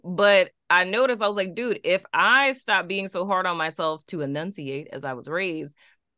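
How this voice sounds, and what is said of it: New Orleans accent. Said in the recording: “y'all can hear it now, my NOLA accent is here”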